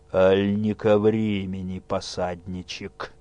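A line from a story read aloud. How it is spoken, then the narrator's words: Muffled gloomy. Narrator (Russian): Сумрачно глядя на Незду ненавидящими глазами, спросил глухо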